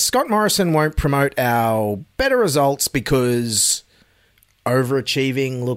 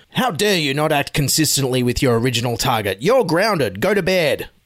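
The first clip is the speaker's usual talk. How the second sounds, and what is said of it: Scott Morrison impression. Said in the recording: “my Scott Morrison impersonation”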